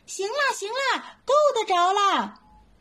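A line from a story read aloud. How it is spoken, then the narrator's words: Little monkey shouting in well. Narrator (Chinese): 小猴子，大家听见他在井里喊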